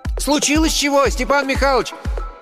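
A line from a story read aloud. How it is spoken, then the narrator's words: Distant breathless shout. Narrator (Russian): издалека крикнул запыхавшийся Ленька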